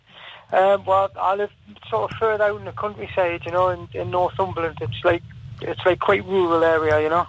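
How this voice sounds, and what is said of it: Newcastle (Geordie) regional accent. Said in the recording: “that's a great accent ... It's born with us ... whereabouts Newcastle are you”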